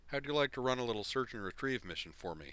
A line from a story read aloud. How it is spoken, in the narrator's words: he asked